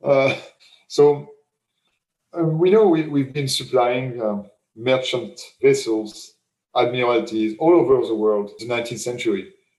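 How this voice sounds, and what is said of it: Strong French accent. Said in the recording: “a French guy with a strong French accent”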